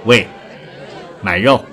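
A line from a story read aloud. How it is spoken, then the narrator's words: Lazy call, young woman. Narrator (Chinese): 一个年轻女子，懒洋洋地喊了一声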